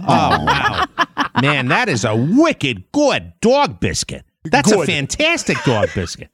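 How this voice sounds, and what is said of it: Dog voice with Boston accent. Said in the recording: “Do Boston Terriers, no. Do they bark with an accent?”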